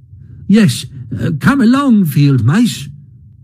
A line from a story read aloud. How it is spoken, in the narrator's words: cried the Mole eagerly